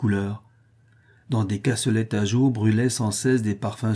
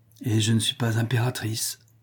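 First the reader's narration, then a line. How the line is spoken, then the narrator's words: Sighed. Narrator (French): soupira-t-elle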